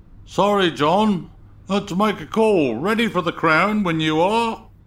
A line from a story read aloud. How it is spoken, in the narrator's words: a voice called out